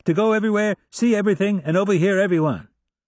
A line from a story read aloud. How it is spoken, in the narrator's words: shouted back